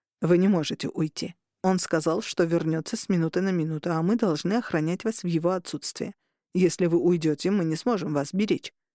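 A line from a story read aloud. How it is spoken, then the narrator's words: Plain. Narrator (Russian): сказал Ривера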